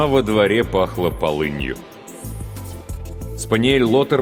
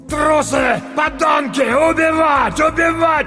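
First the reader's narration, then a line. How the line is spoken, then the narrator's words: Shouting sturdy older man. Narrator (Russian): кричал немолодой, но еще крепкий, коренастый мужчина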